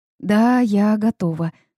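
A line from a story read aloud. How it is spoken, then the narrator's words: Trembling murmur. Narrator (Russian): пролепетала я дрожащим голосом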